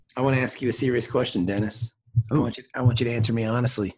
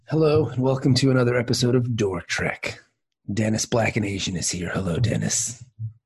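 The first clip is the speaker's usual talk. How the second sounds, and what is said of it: Sexy voice. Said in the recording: “sexy voice ... That is a sexy intro”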